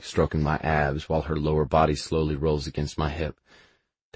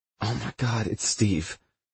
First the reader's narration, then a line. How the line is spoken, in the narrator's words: She hisses out